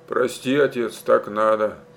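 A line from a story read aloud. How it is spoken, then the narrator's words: Quiet, repentant. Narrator (Russian): тихо спросил покаянно добавил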